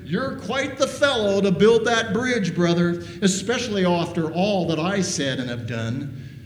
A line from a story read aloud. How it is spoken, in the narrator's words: the younger brother shouting out to his brother